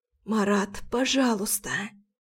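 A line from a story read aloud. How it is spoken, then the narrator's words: Hoarse whisper. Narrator (Russian): Шепчу охрипшим голосом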